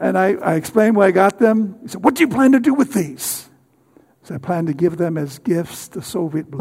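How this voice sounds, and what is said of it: Usual voice. Nothing is said of it.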